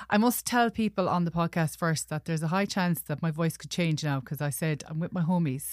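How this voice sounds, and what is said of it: Posh Galway Irish accent. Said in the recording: “My posh Galway accent”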